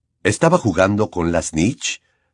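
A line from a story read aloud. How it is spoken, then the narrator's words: Plain question. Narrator (Spanish): preguntó Lupin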